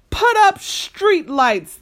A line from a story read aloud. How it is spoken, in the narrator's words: they yelled